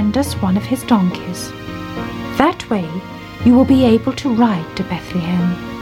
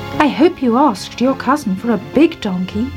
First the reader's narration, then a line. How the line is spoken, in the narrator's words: she said